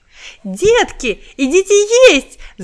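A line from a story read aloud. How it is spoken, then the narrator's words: Joyful shout. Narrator (Russian): закричала она обрадованно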